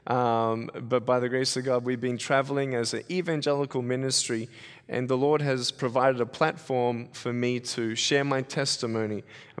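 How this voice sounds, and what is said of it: Mild Australian accent. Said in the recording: “by my accent, you can probably tell I'm from Australia. It's watered down a little bit.”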